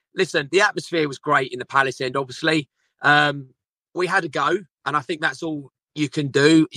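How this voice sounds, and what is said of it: Slightly hoarse voice. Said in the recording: “we're a bit hoarse because we've been singing our heart out”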